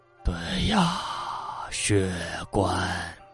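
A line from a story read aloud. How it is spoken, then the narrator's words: Sighing. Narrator (Chinese): 李宝根叹气道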